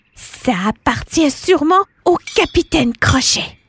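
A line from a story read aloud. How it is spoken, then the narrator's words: Two voices exclaiming. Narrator (French): Les deux s'exclament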